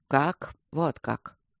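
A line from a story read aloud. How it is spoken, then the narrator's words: Quiet speech. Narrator (Russian): тихо сказал Михей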